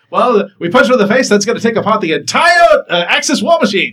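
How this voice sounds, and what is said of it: 1940s radio Mid-Atlantic accent. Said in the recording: “You have a pretty good 40s radio voice. ... The Mid-Atlantic accent? ... I love doing that accent.”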